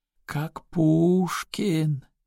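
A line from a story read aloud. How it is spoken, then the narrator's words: Wounded man drawling. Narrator (Russian): протянул раненый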